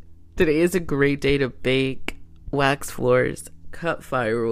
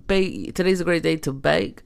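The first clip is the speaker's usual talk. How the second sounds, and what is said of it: Sudden put-on accent. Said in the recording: “I have no idea where that accent came from.”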